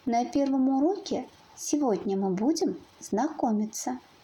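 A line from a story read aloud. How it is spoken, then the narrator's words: Calm. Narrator (Russian): спокойно произнес ёж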